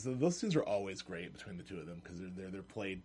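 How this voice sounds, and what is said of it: Usual voice. Nothing is said of it.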